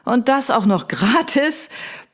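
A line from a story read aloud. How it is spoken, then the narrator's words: Booming giant, grunting laugh. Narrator (German): poltert der Hühne und fällt in ein grunzendes Lachen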